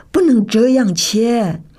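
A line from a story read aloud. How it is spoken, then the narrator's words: Old man shouting. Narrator (Chinese): 爷爷忍不住就大叫说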